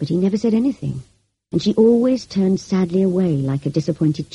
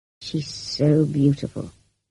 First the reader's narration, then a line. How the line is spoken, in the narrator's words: he murmured